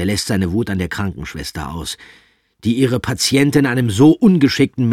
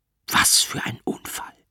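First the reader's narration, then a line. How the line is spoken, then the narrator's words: Doctor whispering. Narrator (German): flüstert der Arzt zu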